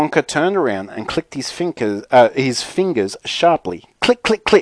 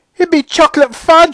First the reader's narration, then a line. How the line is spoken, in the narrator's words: shrieked Mrs